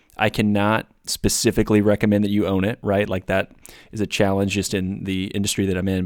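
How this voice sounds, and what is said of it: Flat voice with a cold. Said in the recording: “I am battling a little bit of a cold. So if my voice is flat”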